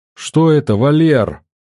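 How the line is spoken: Near shouting. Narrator (Russian): Жена почти кричала

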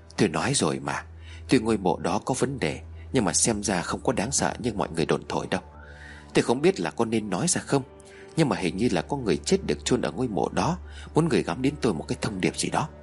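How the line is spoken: Soft. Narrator (Vietnamese): Ông Tú khẽ nói

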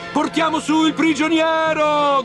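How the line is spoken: Shouting. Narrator (Italian): gridavano

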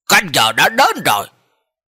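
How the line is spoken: Stern deep shout. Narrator (Vietnamese): quan viên, vẻ mặt uy nghiêm trầm giọng quát

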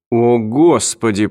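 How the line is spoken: Groaning. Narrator (Russian): простонал Марти Брен

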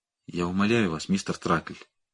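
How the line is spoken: Barely audible. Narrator (Russian): проговорил он едва слышно

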